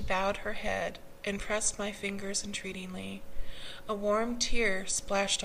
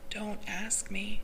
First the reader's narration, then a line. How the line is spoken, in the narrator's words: whispered